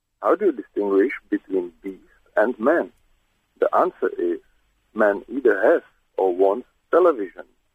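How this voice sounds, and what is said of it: Congested, cold-affected voice. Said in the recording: “You sound like Roger Moore... I have a cold, a little bit.”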